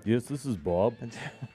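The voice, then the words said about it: Imitates another person's voice. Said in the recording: “is that your Bob impression?”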